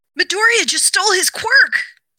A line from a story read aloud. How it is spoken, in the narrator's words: one of his other classmates yell